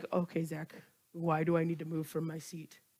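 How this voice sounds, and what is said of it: Put-on deep voice. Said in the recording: “Normally I give everyone a high-pitched voice. I'm giving you a deep voice.”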